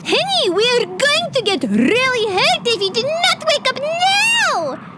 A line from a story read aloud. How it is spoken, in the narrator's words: Khawler shrieked